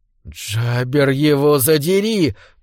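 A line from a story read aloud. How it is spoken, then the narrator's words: Hissed. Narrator (Russian): прошипел Иоганнес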